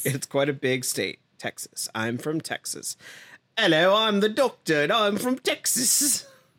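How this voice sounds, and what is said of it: Poor put-on English accent. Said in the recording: “That's not that much worse than David Tennant's English accent ... If we have any British viewers, they have just unsubscribed.”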